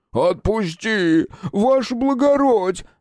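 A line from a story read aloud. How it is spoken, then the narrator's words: Howled. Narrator (Russian): взвыл дубильщик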